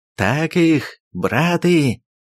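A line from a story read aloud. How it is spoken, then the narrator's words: Joyful exclamation. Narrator (Russian): радостно воскликнул Ермак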